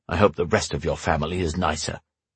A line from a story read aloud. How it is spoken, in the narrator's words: he muttered